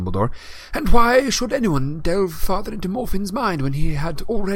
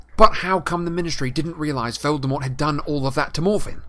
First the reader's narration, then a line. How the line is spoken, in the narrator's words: Harry said angrily